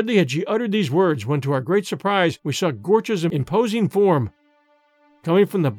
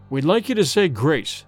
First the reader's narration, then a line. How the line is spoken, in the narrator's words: said in a firm voice, though his face had lost its color